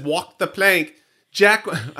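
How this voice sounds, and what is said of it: Weird hybrid British-Australian accent. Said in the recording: “I said it in this weird accent. It's like my New Jersey accent. It's like a weird hybrid of British Australian thing.”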